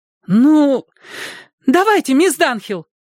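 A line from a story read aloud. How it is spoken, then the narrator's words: Young woman's exclamation. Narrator (Russian): воскликнула одна из девушек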